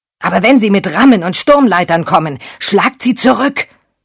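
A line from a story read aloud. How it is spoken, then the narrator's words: Roaring. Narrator (German): brüllte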